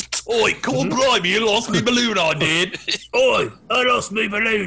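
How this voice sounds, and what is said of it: Put-on Cockney accent. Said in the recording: “Cockney accent”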